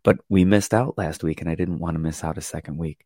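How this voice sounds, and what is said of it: Very soft, weakened voice. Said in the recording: “I'm really, really soft ... Completely lost my voice yesterday”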